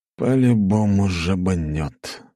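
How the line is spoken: Sigh. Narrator (Russian): вздохнул Фирсов

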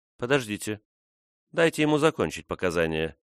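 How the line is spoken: Soft gentle speech. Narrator (Russian): мягко сказала Фрона

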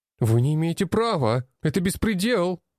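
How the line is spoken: Shout. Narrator (Russian): выкрикнул

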